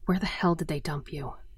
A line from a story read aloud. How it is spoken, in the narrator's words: I whispered